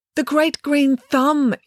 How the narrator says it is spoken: exclaimed the mayor

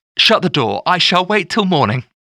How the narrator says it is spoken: as a last chance, I cried out

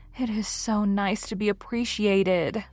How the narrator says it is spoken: sighed Anne rapturously to Marilla

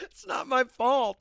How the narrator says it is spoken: I laughed back

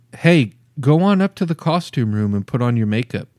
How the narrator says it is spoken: said Megan

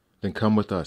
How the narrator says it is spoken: said the dog

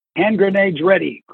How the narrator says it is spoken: Krieg shouted to the frontal position

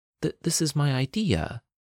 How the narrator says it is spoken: Clara stammered

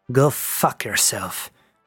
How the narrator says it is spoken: the woman spat

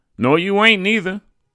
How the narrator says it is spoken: barked

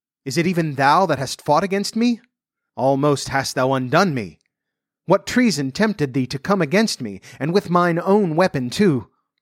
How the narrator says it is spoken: cried the king

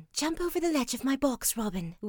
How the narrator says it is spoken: whispered a sudden small voice

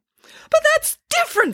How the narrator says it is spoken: spluttered the doctor

